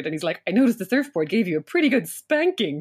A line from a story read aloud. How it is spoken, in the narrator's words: Sean chuckled